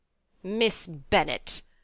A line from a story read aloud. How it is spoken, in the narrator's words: replied her ladyship in an angry tone